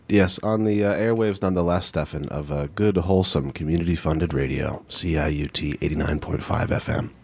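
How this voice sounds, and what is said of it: Deep, showy radio announcer voice. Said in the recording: “Nice deep voice there ... You're really showing off your radio voice there.”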